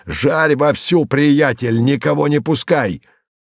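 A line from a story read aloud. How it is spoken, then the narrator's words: Shout. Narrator (Russian): закричал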